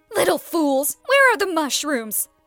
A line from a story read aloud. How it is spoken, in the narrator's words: the stepmother shouted